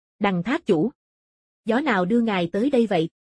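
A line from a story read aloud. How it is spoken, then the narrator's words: Loud laughing. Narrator (Vietnamese): Phí Vũ Tường cười lớn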